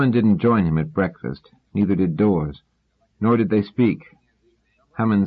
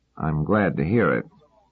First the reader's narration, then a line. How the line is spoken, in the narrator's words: said Hummin dryly